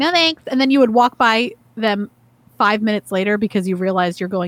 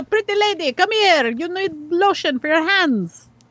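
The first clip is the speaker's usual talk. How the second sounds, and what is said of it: Put-on accent. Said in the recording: “offensive portrayal of someone's accent”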